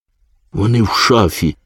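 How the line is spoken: Frightened yet pleased. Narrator (Ukrainian): сказала панна Цап, заразом злякано і вдоволено

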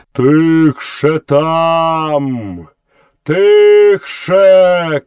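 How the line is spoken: Wild elephant shouting. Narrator (Ukrainian): крикнув хаті дикий слон

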